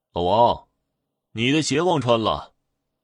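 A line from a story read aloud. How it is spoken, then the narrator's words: Calling out. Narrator (Chinese): 那个伙计在喊他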